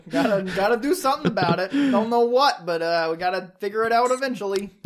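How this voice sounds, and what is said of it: Faint New York accent. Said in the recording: “Don't know what that accent is. It's just like faintly New York.”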